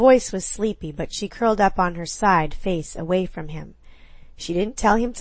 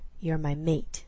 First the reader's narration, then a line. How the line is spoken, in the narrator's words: he whispered roughly